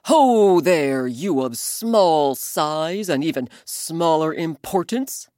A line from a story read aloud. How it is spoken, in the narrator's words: Elephant roared